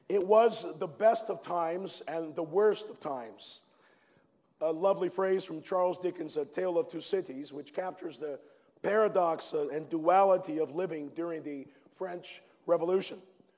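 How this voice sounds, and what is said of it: Faded, worn-out voice. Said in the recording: “as my voice has faded away”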